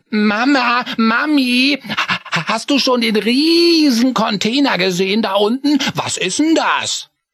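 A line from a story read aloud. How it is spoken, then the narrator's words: Called out. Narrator (German): rief er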